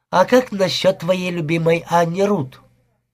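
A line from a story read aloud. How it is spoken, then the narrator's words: Plain. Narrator (Russian): Я ответил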